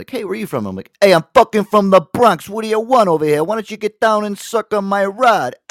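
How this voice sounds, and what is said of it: Put-on New York Bronx accent. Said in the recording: “if I wanted to be like I was from New York, I would do my Andrew Dice Clay”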